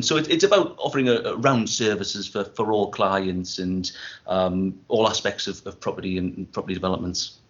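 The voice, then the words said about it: Northeast English accent. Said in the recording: “as you can probably tell from the accent, I'm Northeast based myself”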